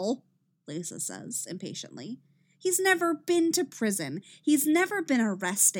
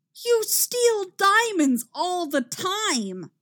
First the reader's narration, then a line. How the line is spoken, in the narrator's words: Cisco shouts